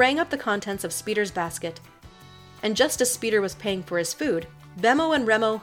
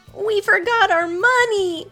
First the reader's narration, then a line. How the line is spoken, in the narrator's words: Bemo cried